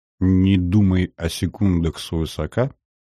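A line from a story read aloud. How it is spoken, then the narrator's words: Nervous, soft whistling. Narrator (Russian): Он нервно хмыкнул и, тихо насвистывая себе под нос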